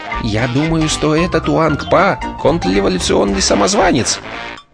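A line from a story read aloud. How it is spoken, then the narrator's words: Quiet speech. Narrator (Russian): проговорил тихо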